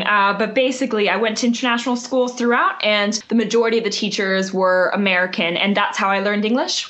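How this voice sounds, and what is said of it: American English accent. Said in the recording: “your accent sounds American”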